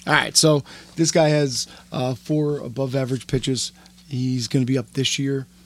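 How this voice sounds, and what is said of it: Damaged, strained voice. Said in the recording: “Your voice is still screwed up.”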